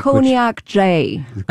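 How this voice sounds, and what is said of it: Put-on American accent. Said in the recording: “Say that with an American accent”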